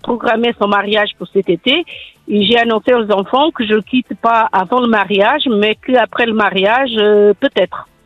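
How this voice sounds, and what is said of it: Slight Portuguese accent in French. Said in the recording (French): “ce petit accent qui vient du Portugal”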